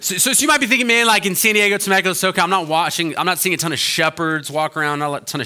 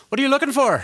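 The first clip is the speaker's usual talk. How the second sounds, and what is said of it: Put-on stereotypical Irish woman's accent. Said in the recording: “that sheep's talking with an Irish accent ... a stereotypical small Irish woman”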